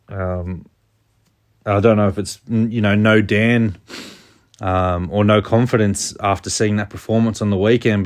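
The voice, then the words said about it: Subdued, downbeat voice. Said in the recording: “you can probably hear it in my voice... when we have a loss, I'm usually pretty upbeat”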